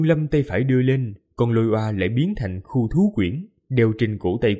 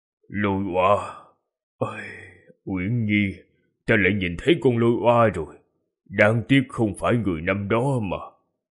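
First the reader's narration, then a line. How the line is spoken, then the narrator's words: Sad sighing murmur. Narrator (Vietnamese): Người đàn ông trung niên buồn bã than nhẹ một tiếng, thì thào lẩm bẩm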